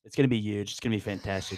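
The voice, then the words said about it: Donald Trump impression. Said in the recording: “He does it so much better than me. ... I could do a pretty good Trump impersonation.”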